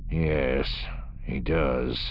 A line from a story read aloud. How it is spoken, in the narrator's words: Bakeef murmured